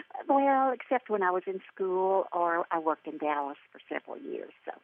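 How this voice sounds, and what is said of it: Southern US accent. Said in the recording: “got that wonderful Southern accent”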